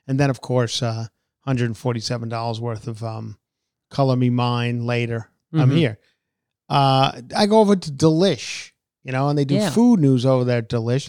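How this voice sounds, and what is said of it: Tired, worn-out voice. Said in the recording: “I'm a little worn out, as you can tell by my voice,”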